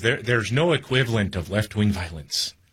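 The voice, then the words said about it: Poor put-on Irish accent. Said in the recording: “he's a little Irish guy ... That's a terrible accent”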